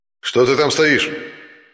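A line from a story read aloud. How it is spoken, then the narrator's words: Booming amplified echo. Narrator (Russian): прогремел под сводами тоннеля, усиленный громкоговорителем, голос полицейского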